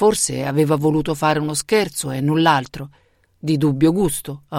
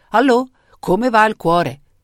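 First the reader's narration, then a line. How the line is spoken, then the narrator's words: Jovial man shouting. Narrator (Italian): il ridanciano dottore gli aveva gridato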